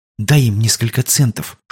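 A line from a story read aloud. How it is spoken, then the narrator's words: Whispered. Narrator (Russian): шепнула она Тэбу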